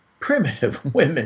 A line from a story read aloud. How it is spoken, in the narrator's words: scoffed